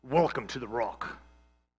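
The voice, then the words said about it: Sean Connery Scottish accent impression. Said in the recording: “Sean Connery comes out and he says ... that was a great Scottish accent”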